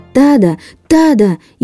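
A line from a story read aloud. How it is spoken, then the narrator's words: Shouting at full strength. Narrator (Russian): изо всех сил закричал Чан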